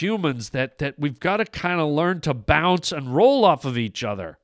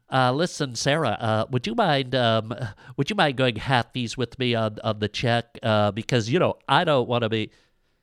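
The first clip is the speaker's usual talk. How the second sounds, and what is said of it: Mocking impression of white guy voice. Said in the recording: “whenever African-American comedians take a poke at white men, they always do this voice ... when white guys are at a dinner ... the white guys are always like”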